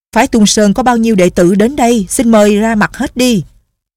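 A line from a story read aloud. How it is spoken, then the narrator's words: Loud, shaking with anger. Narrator (Vietnamese): Lưu Chính Phong giận đến run người, lớn tiếng nói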